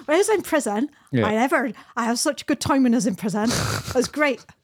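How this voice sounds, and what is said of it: Put-on broad West Country accent. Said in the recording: “the most broad Devonshire accent that you could ever imagine ... That sounds more Cornish. It's not Devon. It's more ... Bristol.”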